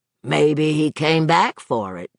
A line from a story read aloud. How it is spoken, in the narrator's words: the state police detective rumbled